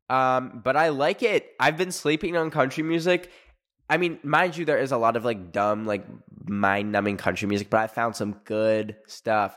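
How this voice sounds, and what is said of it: Raspy, hoarse voice. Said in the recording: “my voice is so raspy too ... I sound so raspy”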